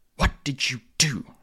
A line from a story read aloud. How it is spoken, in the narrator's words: she hissed